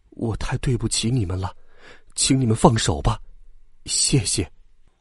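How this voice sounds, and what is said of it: Very quiet, soft-spoken line. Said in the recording (Chinese): “二号很小声的对他们说”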